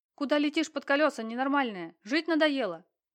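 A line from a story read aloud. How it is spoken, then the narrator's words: Driver's startled shout. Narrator (Russian): крикнул из окна, едва успевший затормозить водитель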